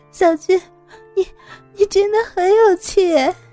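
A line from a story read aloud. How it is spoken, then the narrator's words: Laughing to tears, holding back. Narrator (Chinese): 莎莎笑得眼泪流个不停，强憋着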